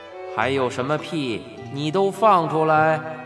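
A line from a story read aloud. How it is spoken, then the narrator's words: Agitated, crude voice. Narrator (Chinese): 天帝的声音不再沉稳，也不再文绉绉，说道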